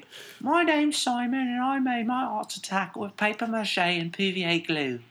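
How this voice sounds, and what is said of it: English kids' TV show impression. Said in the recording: “my Art Attack impression ... it's spot on”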